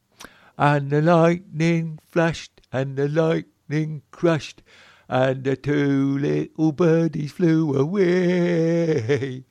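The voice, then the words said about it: Imitates a singer's voice. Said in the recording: “Can I do me impersonation of it? Because I used to do an impersonation of this. ... Well, he wasn't Italian, mate.”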